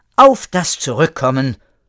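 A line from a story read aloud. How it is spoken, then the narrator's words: Repeated aloud. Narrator (German): wiederholte laut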